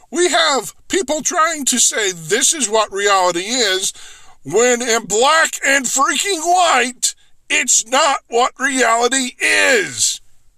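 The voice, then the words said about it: Loud, yelling delivery. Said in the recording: “I'm yelling.”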